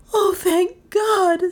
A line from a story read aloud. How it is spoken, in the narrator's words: sobbed Dale